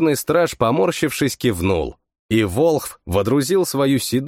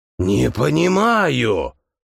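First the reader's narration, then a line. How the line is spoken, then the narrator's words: Breathless wheezing priest. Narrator (Russian): прохрипел с одышкой жрец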